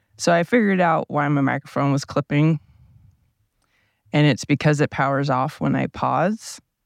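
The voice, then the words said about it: Low, deep morning voice. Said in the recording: “I have morning voice. Morning voice. It can get pretty low.”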